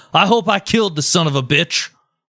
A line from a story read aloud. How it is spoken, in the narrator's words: he shouted